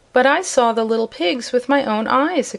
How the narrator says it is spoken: exclaimed Zeb

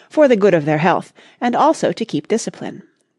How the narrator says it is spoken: replied Gladwin calmly

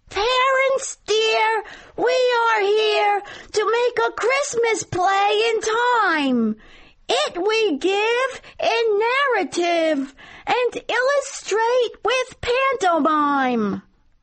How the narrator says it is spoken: Jackie Sauerfeld, the prettiest boy in first grade, in a high voice sang out

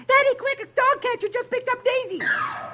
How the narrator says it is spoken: his daughter rushes in and shrieks

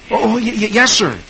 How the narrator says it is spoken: Dick, who never expects himself to be meeting such a famous man, gasps

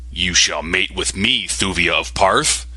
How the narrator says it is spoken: growled

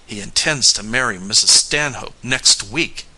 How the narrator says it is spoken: declared bitterly

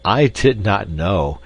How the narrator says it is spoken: added laughingly

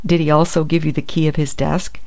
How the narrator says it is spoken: asked the detective dryly

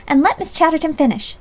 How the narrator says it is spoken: cried the other girls

